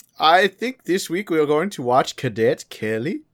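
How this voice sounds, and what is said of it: Put-on Swedish accent. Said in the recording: “I think I'm doing a Swedish accent. ... He's from Norway.”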